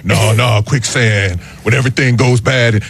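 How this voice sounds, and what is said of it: Imitates another person's voice. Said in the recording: “my Keanu Reeves impression ... You know, it's good. I was digging it.”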